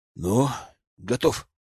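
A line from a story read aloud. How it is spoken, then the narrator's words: Sigh. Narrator (Russian): вздохнул он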